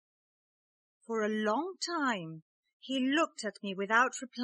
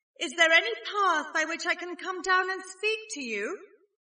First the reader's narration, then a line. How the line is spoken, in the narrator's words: I called out